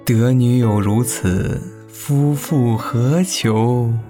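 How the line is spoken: Admiring sigh. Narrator (Chinese): 单成旺不由感叹

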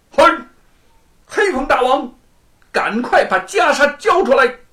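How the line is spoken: Loud shout. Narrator (Chinese): 吴承恩向洞里头高喊一声

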